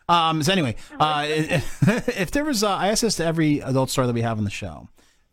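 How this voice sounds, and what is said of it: Slightly stuttering, tipsy speech. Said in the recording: “I'm stuttering a little bit. I've been drinking for a little while.”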